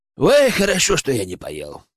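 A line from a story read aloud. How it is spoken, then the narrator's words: Amused snort. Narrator (Russian): хмыкнул Генка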